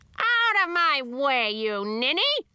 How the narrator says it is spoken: screeched my grandmother

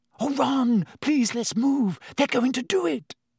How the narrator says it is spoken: Hermione breathed

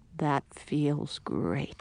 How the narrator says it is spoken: he murmured

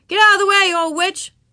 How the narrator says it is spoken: Erigar yelled at Ramona

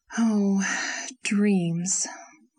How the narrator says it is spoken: sighed Anne

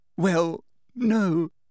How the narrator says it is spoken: sobbed Hermione

